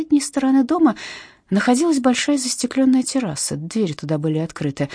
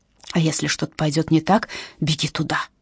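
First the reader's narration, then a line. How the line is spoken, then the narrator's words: Mother whispering. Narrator (Russian): прошептала мама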